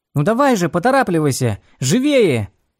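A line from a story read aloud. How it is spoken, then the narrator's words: Comrades shouting. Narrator (Russian): кричали ему товарищи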